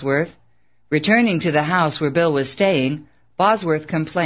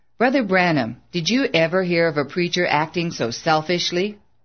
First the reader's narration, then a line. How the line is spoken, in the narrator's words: Bill quipped dryly